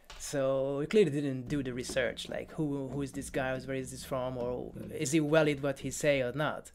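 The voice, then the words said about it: Hungarian-accented English. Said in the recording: “It has the accent. Like, I'm from Hungary ... this is not a British guy”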